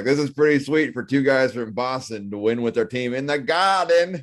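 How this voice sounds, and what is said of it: Bad put-on Boston accent. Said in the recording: “I do what a terrible Boston here? Accent,”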